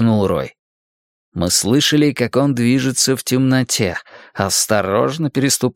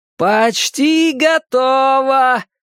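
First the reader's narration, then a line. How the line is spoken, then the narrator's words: Distant singsong shout. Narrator (Russian): нараспев прокричал Рой откуда-то из мрака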